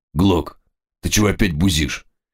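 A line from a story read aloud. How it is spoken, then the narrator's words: Tense voice. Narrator (Russian): подоспевший официант напряженным голосом произнес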